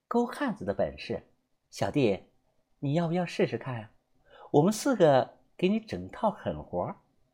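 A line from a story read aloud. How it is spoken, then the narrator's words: Soft whisper, smiling. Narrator (Chinese): 大姐微微一笑，凑在我耳旁啊，小声的告诉了我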